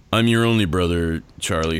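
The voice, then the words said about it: Exaggeratedly deep character voice. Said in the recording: “listen to how deep my voice has already gotten ... it's already like dropped like six or seven octaves”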